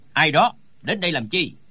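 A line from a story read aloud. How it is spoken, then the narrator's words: Sudden shouted question. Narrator (Vietnamese): Trong đám người bỗng có tiếng quát hỏi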